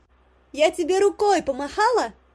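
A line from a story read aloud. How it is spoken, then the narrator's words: Shouted. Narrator (Russian): прокричала Горошенко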